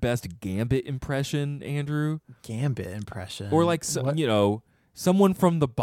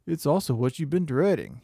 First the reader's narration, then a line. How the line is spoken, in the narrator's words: he says, chuckling